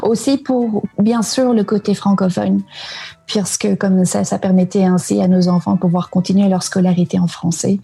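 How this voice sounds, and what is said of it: Slight Canadian French accent, mixed. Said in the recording (French): “t'as pris l'accent ... t'as un vrai petit accent canadien ... c'est une espèce de mélange”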